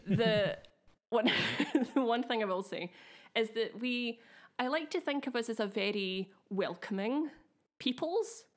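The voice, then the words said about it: Slightly affected Glaswegian accent. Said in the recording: “As a Glaswegian myself, albeit one with a slightly affected accent”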